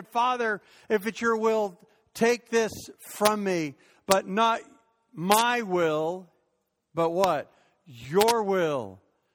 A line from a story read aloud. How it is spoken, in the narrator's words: he cried out to God and said